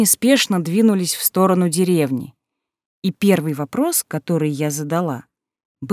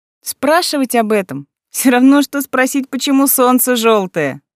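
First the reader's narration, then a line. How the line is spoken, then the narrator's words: Laughing. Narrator (Russian): засмеялся лисенок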